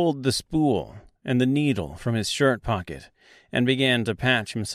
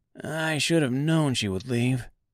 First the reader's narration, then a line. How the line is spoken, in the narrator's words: said Scarecrow in a sullen voice